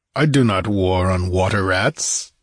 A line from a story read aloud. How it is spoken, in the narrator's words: he snorted